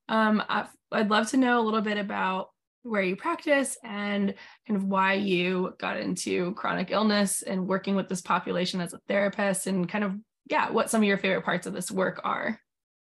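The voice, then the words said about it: Slightly off, sick-sounding voice. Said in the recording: “my voice is a little bit off. I'm a little bit sick”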